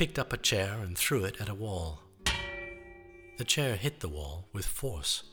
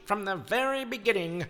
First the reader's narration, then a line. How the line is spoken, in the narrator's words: shrieked